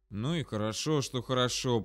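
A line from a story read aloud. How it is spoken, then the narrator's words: Muttering. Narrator (Russian): пробормотал я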